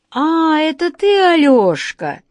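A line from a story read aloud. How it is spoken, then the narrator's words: Joyful exclamation. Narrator (Russian): радостно воскликнул Владимир Владимирович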